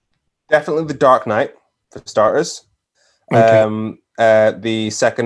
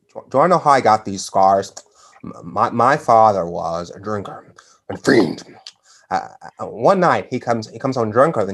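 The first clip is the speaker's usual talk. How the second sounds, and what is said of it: Joker character voice impression. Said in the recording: “my Joker impression ... Because it's spot on”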